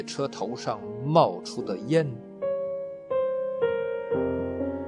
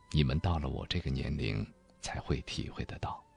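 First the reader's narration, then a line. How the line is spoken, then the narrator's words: Low voice. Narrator (Chinese): 又低声说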